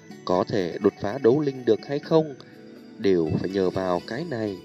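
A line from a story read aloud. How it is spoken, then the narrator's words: Soft-spoken. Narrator (Vietnamese): Tiêu Viêm nhẹ giọng nói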